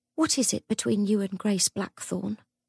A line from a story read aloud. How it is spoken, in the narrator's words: Cordelia said quietly